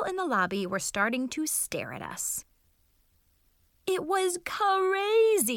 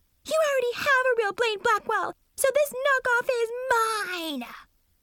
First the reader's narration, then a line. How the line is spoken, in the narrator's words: Mackenzie screeched